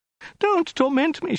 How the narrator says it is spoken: she wailed

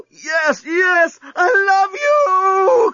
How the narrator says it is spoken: cried Lucy

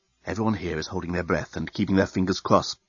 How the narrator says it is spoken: whispered the head reporter of the Bluontin News-Gathering Bureau into his invisible microphone

